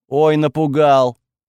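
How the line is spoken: Angry. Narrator (Russian): зло заметил он

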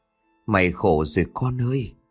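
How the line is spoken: Gentle. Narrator (Vietnamese): Cô Út dịu dàng nói

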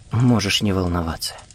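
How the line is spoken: Quiet. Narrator (Russian): тихо сказала она

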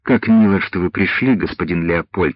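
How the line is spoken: Plain. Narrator (Russian): сказала она

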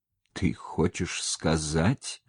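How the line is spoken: Fearful, forced out. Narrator (Russian): Боясь своей догадки, наконец выдавил он

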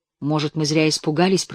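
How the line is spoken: Whisper. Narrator (Russian): прошептал он

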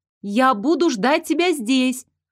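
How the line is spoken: Shout after someone. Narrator (Russian): Крикнула она вдогонку

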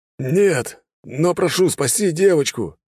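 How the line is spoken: Man shouting out. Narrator (Russian): выкрикнул мужчина

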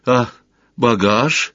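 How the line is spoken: Timid question. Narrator (Russian): робко поинтересовался Сварог

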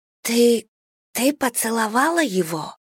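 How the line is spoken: Muffled through door. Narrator (Russian): спросила Джада приглушенным голосом из-за двери ванной

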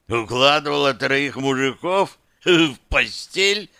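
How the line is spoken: Barked. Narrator (Russian): рявкнул Дымов

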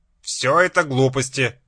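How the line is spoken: Sharp, harsh metallic voice. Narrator (Russian): резко произнес он неприятным металлическим голосом

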